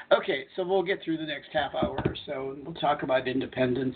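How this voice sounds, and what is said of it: Slightly raspy voice. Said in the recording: “my throat is kind of a little raspy.”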